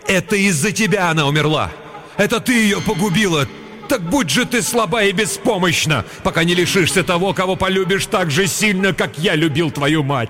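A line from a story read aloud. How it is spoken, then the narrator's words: Grief-stricken loud shout. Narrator (Russian): Отец так сильно любил свою жену, что когда ему сообщили печальную весть и показали дочку, он громко закричал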